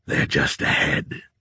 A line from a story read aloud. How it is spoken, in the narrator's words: he growled